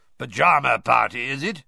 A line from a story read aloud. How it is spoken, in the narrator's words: he growled up the stairs